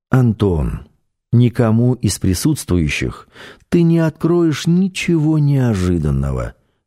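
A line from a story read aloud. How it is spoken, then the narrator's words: Calm, said. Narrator (Russian): спокойно сказал шеф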